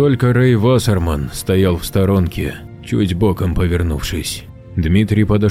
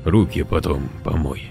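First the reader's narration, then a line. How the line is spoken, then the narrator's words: Quiet. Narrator (Russian): сказал тихо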